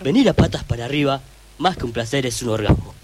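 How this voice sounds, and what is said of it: Announcer voice. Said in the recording (Spanish): “como voz de locutor”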